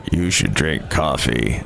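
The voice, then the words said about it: Deliberately deep, lowered voice. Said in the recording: “That was my go-to deep voice.”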